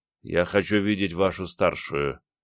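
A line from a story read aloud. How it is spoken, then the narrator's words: Quiet speech. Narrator (Russian): говорил негромко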